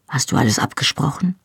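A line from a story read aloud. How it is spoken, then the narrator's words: Quiet speech. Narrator (German): sagte Dougal leise zu Rupert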